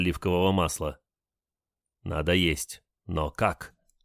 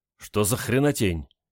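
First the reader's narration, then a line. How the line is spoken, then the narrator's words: Involuntary exclamation. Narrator (Russian): непроизвольно воскликнул Олег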